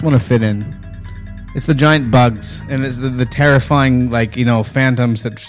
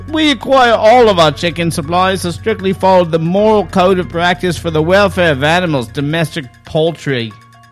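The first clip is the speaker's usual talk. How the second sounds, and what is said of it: Put-on Australian accent. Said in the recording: “Fantastic Australian accent there”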